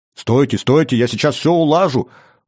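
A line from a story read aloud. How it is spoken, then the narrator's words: Urgent shout. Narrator (Russian): выкрикнул Джан-Батиста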